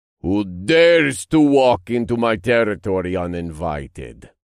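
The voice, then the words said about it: Deep booming demon voice. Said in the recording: “A deep voice boomed around the room”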